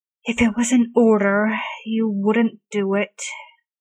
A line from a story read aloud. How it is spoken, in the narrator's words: Arthur sighs